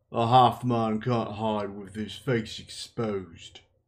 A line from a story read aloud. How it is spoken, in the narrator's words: the warder said in a flat voice